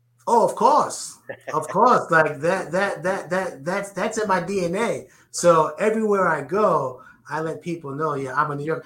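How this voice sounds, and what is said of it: New York accent. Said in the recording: “I hear your New York accent. You know, I can hear, you know, you talk like a New Yorker, I can hear it.”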